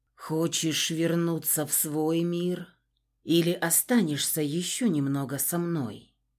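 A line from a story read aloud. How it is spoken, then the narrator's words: Quiet question. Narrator (Russian): прозвучал тихо вопрос Константина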